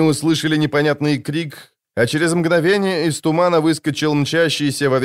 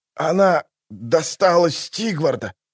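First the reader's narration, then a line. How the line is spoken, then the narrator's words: Breathless, straining. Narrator (Russian): выдохнул он, с трудом поднимаясь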